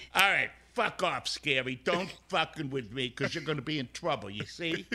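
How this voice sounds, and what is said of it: Tough bouncer character voice. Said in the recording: “I want to hear more of your bouncer voice. ... send us off in your bouncer voice”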